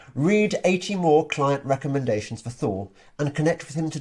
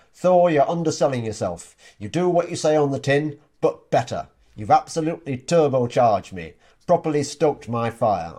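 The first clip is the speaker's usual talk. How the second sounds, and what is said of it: Put-on Yorkshire accent. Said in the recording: “I hope you like my Yorkshire accent there.”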